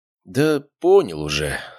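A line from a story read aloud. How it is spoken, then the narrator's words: Sighing again. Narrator (Russian): снова вздохнул я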